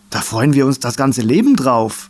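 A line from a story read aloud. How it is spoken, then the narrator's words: Called out. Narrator (German): rief ein anderer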